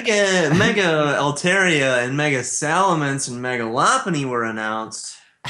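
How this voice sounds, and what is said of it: Fake announcer-style show voice. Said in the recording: “doing the fake show voice”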